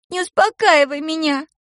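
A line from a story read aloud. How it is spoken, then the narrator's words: Sobbing. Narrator (Russian): прорыдала она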